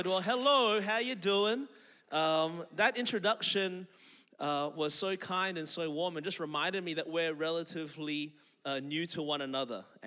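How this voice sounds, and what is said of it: Australian accent. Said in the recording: “I was born and raised in Melbourne, Australia. That's the reason my voice is this way.”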